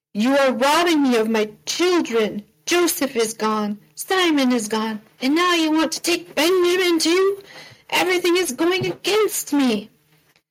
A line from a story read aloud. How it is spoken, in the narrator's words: Jacob exclaimed